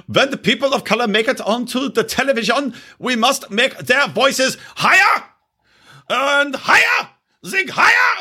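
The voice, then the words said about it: Put-on unidentified mock accent. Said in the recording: “I don't know what accent I'm doing”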